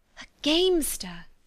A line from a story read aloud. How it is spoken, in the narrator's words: she cried